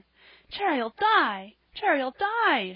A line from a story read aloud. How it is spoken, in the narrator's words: she cried